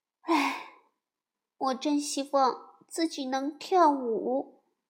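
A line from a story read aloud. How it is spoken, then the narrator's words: Sighing. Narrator (Chinese): 他叹着气说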